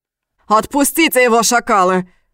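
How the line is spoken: Yelled. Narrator (Russian): заорал старший

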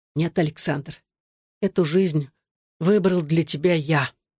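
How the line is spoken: Barely audible ghostly whisper. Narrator (Russian): призрак его умершего отца, голосом едва слышным сквозь громкий стук сердца Александра, шепнул

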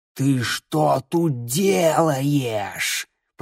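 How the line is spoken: Hiss. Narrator (Russian): прошипел он

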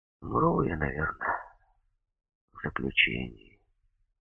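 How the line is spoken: Weary, sorrowfully calm. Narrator (Russian): устало опустил веки и горестно спокойно сказал

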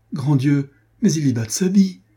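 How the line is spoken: Alarmed exclamation. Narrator (French): s'écria Marguerite

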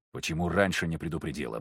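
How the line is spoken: Grunted. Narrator (Russian): буркнул я

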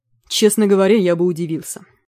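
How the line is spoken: Gloomy reply. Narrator (Russian): мрачно ответил Бижан

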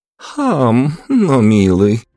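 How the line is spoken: Cooing young woman. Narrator (Russian): проворковала девушка

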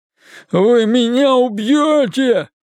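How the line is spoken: Endless sobbing. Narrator (Russian): без конца всхлипывал он

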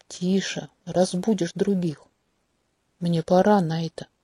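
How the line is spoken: Gentle but firm. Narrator (Russian): повторил он мягко, но твердо

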